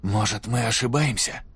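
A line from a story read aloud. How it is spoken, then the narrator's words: Quiet. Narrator (Russian): тихо проговорил Сойер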